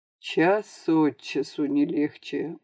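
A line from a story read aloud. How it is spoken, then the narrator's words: Gloomy mutter, director. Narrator (Russian): уныло пробормотал директор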